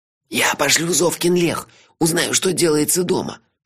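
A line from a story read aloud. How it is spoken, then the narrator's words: Whisper. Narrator (Russian): шепнул Мелифара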